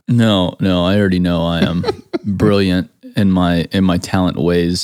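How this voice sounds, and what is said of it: Dry sarcastic delivery. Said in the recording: “that was sarcasm”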